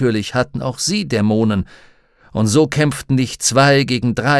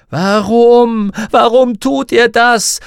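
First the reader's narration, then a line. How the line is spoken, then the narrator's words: Desperate scream. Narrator (German): schrie Lyra verzweifelt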